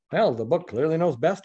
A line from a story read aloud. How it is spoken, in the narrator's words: he muttered to himself